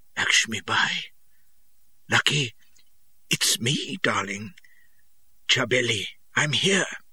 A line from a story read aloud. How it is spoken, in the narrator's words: I croaked